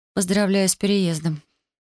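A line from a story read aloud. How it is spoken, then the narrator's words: Mumbled reply. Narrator (Russian): промямлила в ответ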